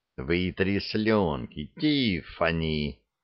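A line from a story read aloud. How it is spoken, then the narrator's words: Soft whisper. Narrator (Russian): тихо шепнул Лекс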